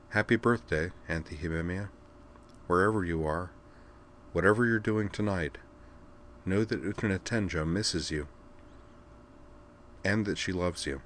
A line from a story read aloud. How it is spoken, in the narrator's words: She smiled with an odd mix of slyness and sadness, said softly